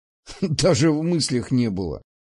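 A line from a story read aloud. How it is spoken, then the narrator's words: Laughing. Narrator (Russian): засмеялся я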